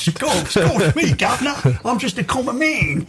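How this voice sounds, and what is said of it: Poor attempt at Cockney accent. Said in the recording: “Can you do a Cockney accent? ... No, I can't ... Worse than Dick Van Dyke. ... I think it's quite as bad as that”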